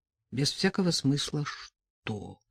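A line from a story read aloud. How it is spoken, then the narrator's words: Mumbling. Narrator (Russian): пробормотал Степан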